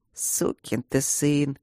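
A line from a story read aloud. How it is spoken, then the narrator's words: Sad. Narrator (Russian): грустно сказал Оурен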